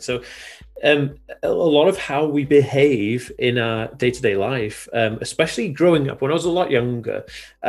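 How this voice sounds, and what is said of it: Mixed British-American accent. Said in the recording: “my accent is almost American. It's kind of a little bit British American”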